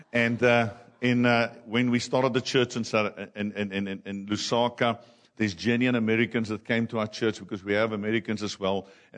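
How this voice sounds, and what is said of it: Thick Afrikaans accent. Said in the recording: “I can barely speak English with not you noticing my Afrikaans accent... my accent is even thicker than Rian's”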